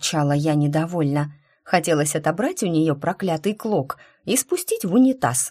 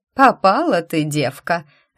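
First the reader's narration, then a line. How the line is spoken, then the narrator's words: Mocking declaration. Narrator (Russian): заявила, насмешливо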